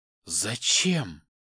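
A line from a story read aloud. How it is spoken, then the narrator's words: Quiet hoarse question. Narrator (Russian): Тихим сиплым голосом спрашивает меня моя спутница на сегодня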